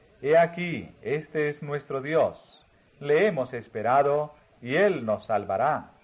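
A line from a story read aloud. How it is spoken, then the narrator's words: Exclaimed. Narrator (Spanish): habrían exclamado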